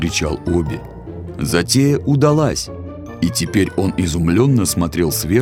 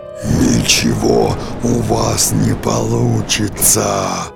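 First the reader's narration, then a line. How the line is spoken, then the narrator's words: Growling. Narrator (Russian): рычал дракон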